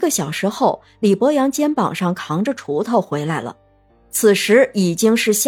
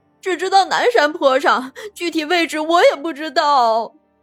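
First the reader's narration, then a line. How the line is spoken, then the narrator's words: Crying. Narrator (Chinese): 春丽想了一下，哭着回答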